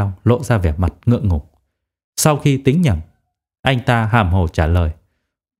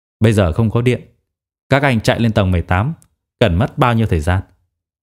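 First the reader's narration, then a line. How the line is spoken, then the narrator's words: Cold question. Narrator (Vietnamese): lạnh lùng hỏi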